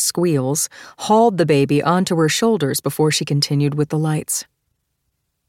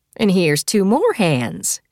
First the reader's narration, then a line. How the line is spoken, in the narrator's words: she said brightly